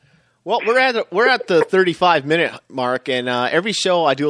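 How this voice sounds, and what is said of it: Usual voice. Nothing is said of it.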